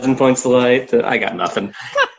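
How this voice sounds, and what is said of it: Imitates another person's voice. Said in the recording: “Should I do the accent? ... George H.W. Bush, Herbert Walker”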